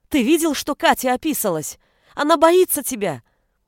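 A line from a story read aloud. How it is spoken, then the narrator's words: Shouting. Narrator (Russian): выкрикнула Анита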